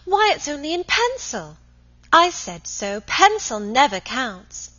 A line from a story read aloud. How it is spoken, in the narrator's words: at once exclaimed